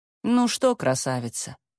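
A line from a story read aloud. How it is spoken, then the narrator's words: Calm. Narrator (Russian): сказала Яга спокойно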